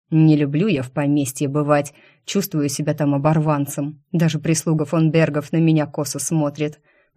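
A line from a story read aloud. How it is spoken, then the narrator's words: Grumbling with sighs. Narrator (Russian): проворчал Алексей, вздыхая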